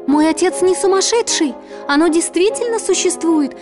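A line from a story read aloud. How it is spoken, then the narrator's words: Shouted. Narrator (Russian): закричала Белль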